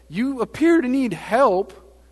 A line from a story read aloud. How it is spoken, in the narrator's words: yelling at them